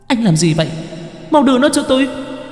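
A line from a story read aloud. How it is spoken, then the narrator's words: Sudden shriek. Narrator (Vietnamese): Cô gái bỗng nhiên rít lên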